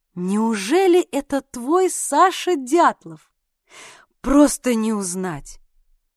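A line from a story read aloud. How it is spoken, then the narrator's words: Sudden admiring declaration. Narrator (Russian): мать вдруг заявила восхищенным голосом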